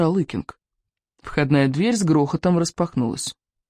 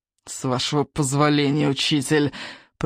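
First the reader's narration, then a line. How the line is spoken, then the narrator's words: Menacing hiss. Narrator (Russian): прошипел Сморкала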